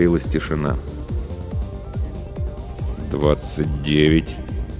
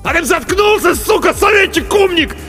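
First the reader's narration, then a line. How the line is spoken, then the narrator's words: Sudden angry yell. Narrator (Russian): заорал вдруг Артамонов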